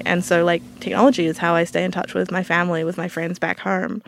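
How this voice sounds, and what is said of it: New Zealand accent. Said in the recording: “my accent. I'm from New Zealand originally”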